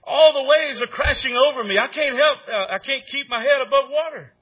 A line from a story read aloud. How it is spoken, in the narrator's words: He cried out to Hopeful